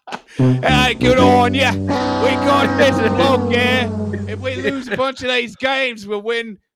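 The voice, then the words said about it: Put-on Australian accent. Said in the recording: “sounds like an Australian. That's Australian. Can you do an Australian accent?”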